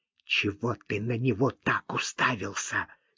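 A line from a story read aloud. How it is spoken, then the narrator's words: Angry hiss. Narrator (Russian): гневно прошипела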